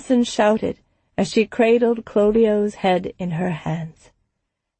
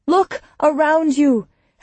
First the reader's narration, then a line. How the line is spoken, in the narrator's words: Helwa shouted back